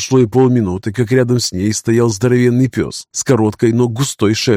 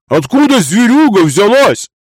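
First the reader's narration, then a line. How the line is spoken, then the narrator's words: Yelling. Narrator (Russian): завопил хозяин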